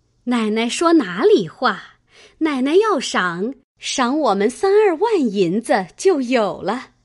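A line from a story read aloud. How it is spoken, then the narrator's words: Laughing. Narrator (Chinese): 赖大家的笑道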